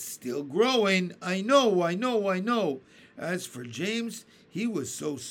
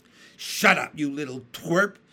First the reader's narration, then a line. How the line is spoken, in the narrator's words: Aunt Spiker snapped